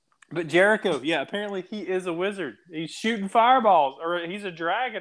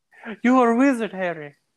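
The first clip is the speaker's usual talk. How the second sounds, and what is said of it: Bad put-on British accent. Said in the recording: “I can't say that with my British accent ... it went British ... my one attempt at a really bad accent”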